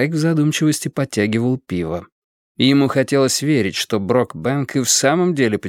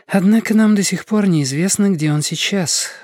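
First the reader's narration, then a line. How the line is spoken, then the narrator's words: Sighed. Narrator (Russian): вздохнул Робин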